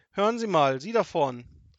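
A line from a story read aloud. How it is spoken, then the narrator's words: Calling out. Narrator (German): rief sie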